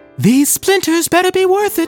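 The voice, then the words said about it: Falsetto moaning character voice. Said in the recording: “In falsetto, Jack in the Box moaned”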